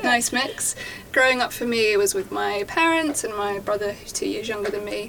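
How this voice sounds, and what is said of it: Strong Essex English accent. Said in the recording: “my very Essex accent”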